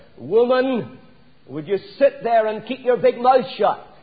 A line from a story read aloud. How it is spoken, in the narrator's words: Having taken all that he could, Harry turned to his wife and shouted